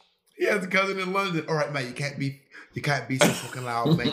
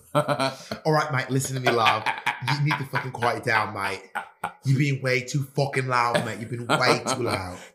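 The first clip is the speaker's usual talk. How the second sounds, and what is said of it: Put-on British accent. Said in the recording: “your British accent ... You do this like British accent face every time you do British accents”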